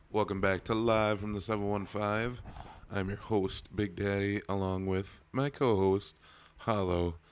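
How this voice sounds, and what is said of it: Hoarse, worn-out voice. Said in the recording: “my voice is a little shot ... A little ... definitely helps with your Macho Man Randy Savage impression”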